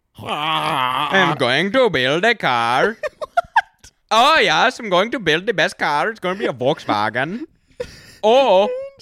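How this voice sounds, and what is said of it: Bad German accent drifting Indian. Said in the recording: “really clean German accent ... It was like Indian German ... It's bad. Everything goes Indian”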